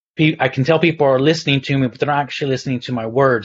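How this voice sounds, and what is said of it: Mixed Texan, Irish and English accent. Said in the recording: “I live in the UK, in the north of England ... I'm originally from Texas ... moved to the Republic of Ireland on the west coast near Galway. So my accent's all over”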